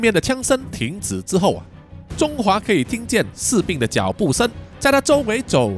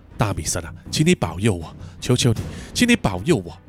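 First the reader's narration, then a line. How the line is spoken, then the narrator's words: Low whispered prayer. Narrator (Chinese): 中华低声的祈祷说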